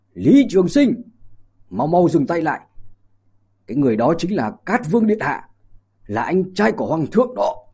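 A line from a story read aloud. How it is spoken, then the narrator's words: Urgent loud calling. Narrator (Vietnamese): ông liền lớn tiếng gọi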